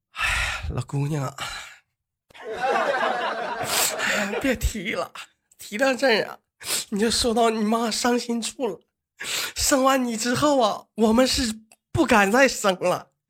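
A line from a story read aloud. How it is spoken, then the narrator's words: Sighing mother. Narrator (Chinese): 他妈叹了口气说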